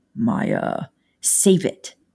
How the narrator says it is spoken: she said bitterly

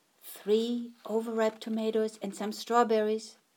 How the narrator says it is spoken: Grandma whispered

